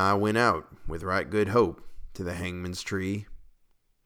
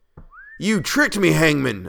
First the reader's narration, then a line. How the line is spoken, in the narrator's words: I shouted